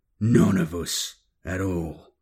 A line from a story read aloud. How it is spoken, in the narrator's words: growled Hodir in reply